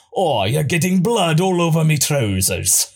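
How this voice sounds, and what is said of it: Put-on Scottish accent. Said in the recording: “it's all canon that Moro has a Scottish accent.”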